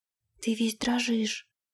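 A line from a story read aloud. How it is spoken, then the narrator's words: Quiet remark. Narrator (Russian): тихо заметила она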